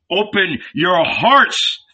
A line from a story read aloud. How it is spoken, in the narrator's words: thundered Jesus